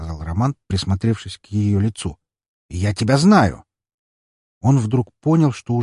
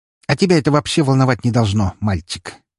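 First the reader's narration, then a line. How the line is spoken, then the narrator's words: Snorting witch. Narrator (Russian): фыркнула ведьма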